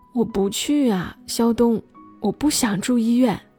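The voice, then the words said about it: Quiet, pleading voice. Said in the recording (Chinese): “小声哀求”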